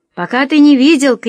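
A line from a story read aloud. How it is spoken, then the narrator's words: Shouted. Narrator (Russian): крикнул я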